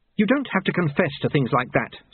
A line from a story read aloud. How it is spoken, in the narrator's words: Susan snapped